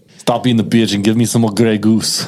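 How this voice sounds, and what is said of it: Imitates another person's voice. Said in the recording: “You can do a pretty good Arnie.”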